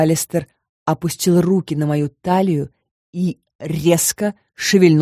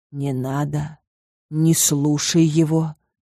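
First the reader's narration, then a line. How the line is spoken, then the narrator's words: Sudden whisper. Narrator (Russian): вдруг прошептал Коул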